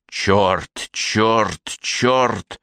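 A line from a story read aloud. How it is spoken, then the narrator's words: Growling. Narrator (Russian): прорычала она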